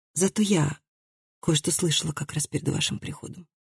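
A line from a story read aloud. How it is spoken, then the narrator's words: Surprised, bold whisper. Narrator (Russian): прошептала Хильди, удивившись собственной смелости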